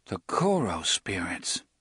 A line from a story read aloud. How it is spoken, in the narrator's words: Eddie murmured, mostly to himself